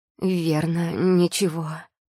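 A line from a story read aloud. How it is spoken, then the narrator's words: Strained. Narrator (Russian): с трудом выдавила я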